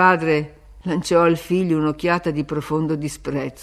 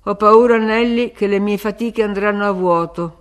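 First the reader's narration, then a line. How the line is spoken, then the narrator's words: Grumbled. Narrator (Italian): brontolò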